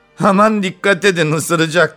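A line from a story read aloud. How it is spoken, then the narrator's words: Shouting. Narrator (Turkish): diye bağırdı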